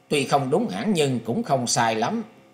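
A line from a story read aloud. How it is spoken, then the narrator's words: Laughing loudly. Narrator (Vietnamese): Lữ Tùng Lâm cười to đáp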